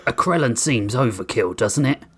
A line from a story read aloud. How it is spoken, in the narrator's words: Grissom muttered, as nonchalantly as he could muster